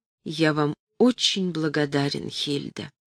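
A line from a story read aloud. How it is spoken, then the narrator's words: Quiet, man. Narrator (Russian): Он сказал тихо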